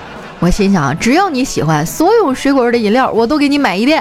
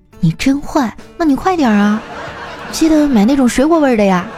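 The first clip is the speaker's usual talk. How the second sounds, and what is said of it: Quiet, soft-spoken line. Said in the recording (Chinese): “小声说”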